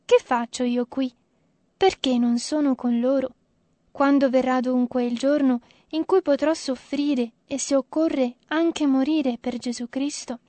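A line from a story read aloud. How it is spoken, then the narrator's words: Repeated sighing. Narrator (Italian): fu inteso più volte sospirare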